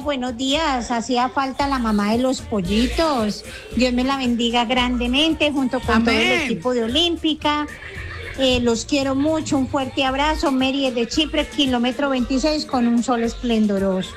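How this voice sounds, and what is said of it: Regional accent, small sweet voice. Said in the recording (Spanish): “me encanta el acento de ... me encanta esa vocecita de”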